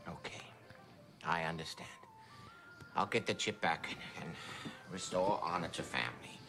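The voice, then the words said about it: Put-on Chinese accent. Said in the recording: “A Chinese accent?”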